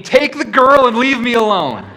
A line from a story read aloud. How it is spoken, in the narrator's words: screaming